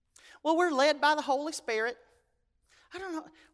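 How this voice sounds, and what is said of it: Put-on Southern accent, dumb character. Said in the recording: “Why do I always make the dumb people sound Southern?”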